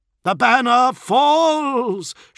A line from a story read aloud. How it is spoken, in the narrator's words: shouted a voice